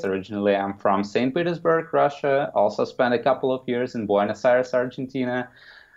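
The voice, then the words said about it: Non-American foreign accent. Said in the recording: “probably by my accent, you can say that I'm not from the United States”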